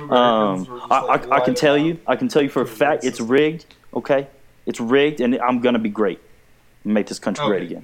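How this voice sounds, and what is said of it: Imitates another person's voice. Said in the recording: “your Donald Trump impression is way worse than the... that was more freaking George Bush than anything”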